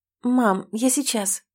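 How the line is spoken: Absent-minded mumble. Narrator (Russian): рассеянно бормочу

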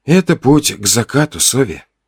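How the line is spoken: Quiet. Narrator (Russian): тихо сказал я

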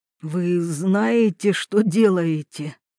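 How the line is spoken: Hoarse question. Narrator (Russian): спросил он хрипло

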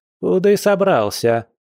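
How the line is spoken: Grandmother, loud and stern. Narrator (Russian): громко и строго спросила бабуля

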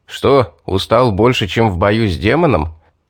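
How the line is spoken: Laughing jab. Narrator (Russian): хохотнул Стоун

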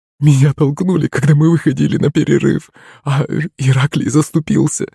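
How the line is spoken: Sobbing. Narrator (Russian): всхлипывала Аннушка

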